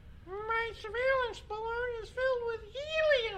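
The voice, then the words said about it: High-pitched falsetto voice. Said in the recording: “How did you get that tone? ... That was a beautiful falsetto.”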